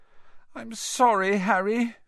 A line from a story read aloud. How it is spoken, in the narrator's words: she wailed